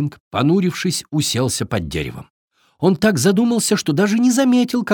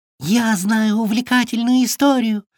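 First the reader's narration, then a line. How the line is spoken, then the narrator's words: Tiny squeaky voice. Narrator (Russian): пропищала крошечная незнакомка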